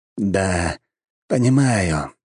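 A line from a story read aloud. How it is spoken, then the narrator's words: Sighing. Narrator (Russian): вздохнул некромант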